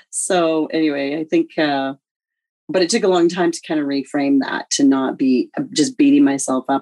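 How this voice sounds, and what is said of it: Hoarse, nearly lost voice. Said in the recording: “You can hear I'm almost losing my voice too. And that was just from pure laughter and dancing and singing.”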